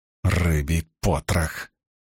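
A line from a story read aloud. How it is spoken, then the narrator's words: Irritated grumble. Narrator (Russian): проворчала Суан, которой явно не доставало самообладания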